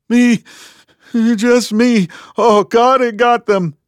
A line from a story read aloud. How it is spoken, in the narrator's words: wailed the young man